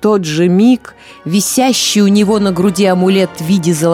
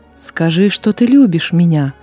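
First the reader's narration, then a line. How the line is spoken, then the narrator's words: Soft command. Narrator (Russian): мягко приказал шейх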